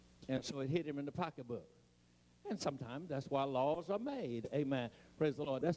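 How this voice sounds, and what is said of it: Eastern US, Maryland accent. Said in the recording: “I have what is called a Eastern accent. I sound like I'm from Maryland.”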